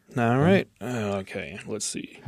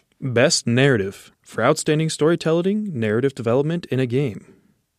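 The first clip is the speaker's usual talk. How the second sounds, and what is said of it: Announcer voice. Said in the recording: “I'll do my best announcer voice.”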